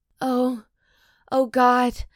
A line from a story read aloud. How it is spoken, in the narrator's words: I moan